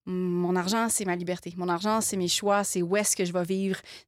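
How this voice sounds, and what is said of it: Slight Québécois French accent. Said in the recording (French): “tu as un petit accent ... qui dénote ... le fait que tu vives euh, outre-Atlantique. Tu vis au Québec.”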